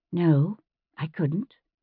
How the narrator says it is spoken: in the patient tone one might use to tell a child why he oughtn't to put his hand into the fire

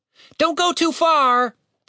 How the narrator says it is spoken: Tim shouted after him

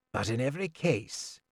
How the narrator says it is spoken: told me wearily

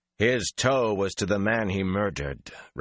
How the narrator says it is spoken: Rand said coldly

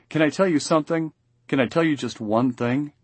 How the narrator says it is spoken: She twists her face away and groans

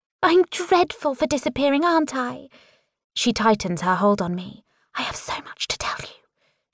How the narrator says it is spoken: she whispers in my ear

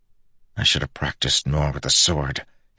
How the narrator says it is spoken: he muttered

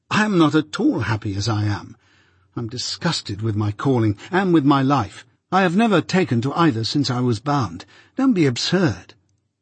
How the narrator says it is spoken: I exclaimed impatiently

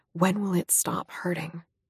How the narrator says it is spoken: whispered

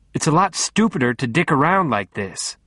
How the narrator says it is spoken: she snapped

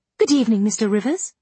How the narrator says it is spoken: a gay voice, sweet as a silver bell, exclaimed

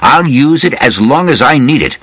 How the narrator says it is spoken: said loudly

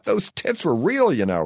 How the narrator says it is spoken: he hollers in mammary mania

